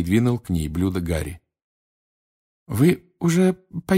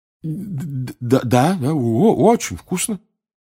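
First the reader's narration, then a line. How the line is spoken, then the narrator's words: Stammering. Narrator (Russian): заикаясь, проговорил Рон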